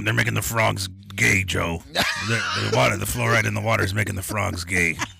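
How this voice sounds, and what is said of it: Alex Jones impression. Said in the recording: “You got him down, dude. You got a good impression of that cat, dude.”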